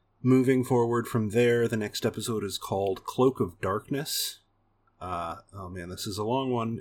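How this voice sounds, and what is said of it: Usual voice. Nothing is said of it.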